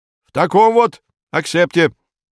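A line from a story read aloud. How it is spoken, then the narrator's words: Stern. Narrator (Russian): говорит Модест Матвеевич, строго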